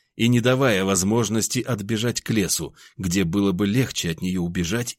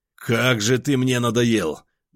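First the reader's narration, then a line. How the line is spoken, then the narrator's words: Roared. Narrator (Russian): взревел я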